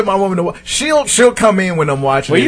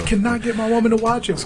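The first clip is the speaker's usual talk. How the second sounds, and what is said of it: Whispering. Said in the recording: “Why am I whispering?”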